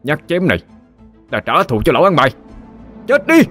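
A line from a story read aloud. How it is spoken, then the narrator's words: Roaring through gritted teeth. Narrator (Vietnamese): Cậu nghiến răng ken két mà gầm lên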